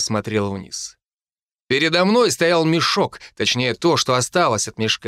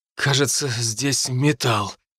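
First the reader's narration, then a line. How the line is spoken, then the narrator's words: Hoarsely forced out. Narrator (Russian): хрипло выдавил я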